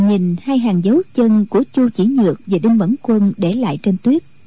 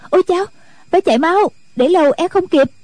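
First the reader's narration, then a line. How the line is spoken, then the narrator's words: Sudden cry. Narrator (Vietnamese): Thôn nữ đột nhiên kêu lên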